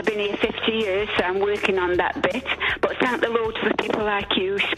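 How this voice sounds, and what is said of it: Italian accent. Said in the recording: “Don't go by my accent. ... that Italian accent will go away in time.”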